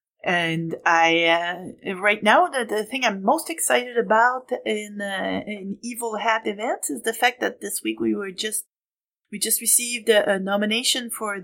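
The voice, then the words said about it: French Canadian accent. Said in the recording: “if you haven't figured it out from the accent, I'm French Canadian”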